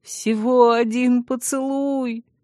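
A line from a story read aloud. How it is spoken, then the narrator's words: Pitiful whimper. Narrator (Russian): вновь жалостливо прохныкал Вильгельм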